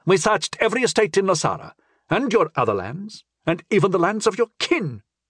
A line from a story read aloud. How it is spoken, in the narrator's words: he said angrily